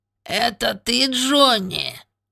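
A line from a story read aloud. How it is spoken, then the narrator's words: Squeaky voice. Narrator (Russian): пропищал он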